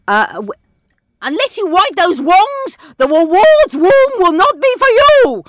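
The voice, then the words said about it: Screechy character voice. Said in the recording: “Wed Wabbit himself ... has an incredibly screechy voice”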